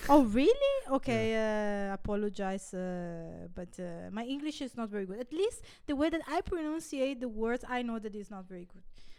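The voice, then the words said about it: Italian-accented English. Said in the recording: “I have an Italian, how can I say? ... Accent. ... my Italian accent”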